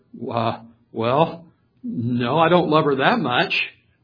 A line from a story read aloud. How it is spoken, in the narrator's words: the young man stuttered